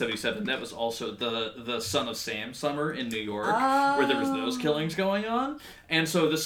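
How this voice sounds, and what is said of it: Usual voice. Nothing is said of it.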